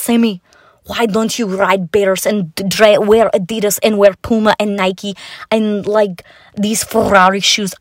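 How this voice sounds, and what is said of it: Put-on mild Russian accent. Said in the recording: “this low-key Russian accent ... they talk like this to me all the time ... I have to practice it better. I'm starting to lose my Russian accent”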